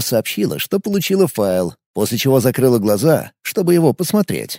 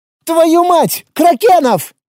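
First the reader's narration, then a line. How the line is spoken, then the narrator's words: Sudden shout. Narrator (Russian): неожиданно крикнула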